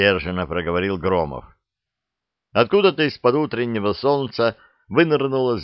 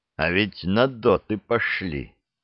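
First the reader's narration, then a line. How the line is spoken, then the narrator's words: Grinding through teeth. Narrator (Russian): проскрипел зубами Громов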